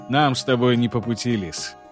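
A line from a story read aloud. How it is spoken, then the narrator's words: Grim. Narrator (Russian): мрачно произнес Базиль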